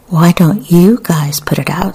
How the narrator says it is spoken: said one woman

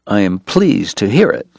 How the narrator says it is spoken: Doc said tightly

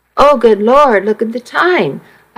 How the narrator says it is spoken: I exclaimed

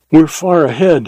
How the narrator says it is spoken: he panted

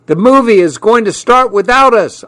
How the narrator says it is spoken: yelled

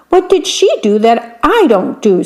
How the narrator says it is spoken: said the man crossly

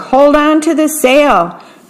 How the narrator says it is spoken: cried Jack as they battled a tropical gale

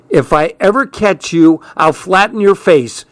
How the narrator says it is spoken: she hollered

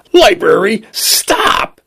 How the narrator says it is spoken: he screamed

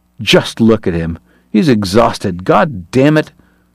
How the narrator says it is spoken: Uncharmed, Kate snarled

